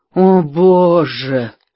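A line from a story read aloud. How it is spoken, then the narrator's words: Moaning. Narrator (Russian): простонал Бикс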